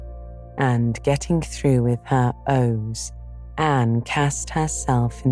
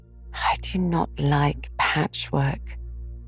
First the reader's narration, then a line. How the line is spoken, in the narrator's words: said Anne dolefully, with a sigh